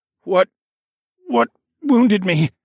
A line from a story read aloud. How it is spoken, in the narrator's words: I croaked out